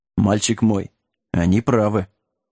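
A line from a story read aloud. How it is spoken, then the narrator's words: Quiet mutter. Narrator (Russian): тихо пробормотал Лагун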